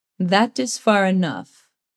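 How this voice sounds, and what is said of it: Thick Swedish accent. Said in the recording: “His accent is thick and comes from Sweden.”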